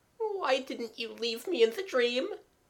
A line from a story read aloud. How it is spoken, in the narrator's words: Jimmy almost whimpered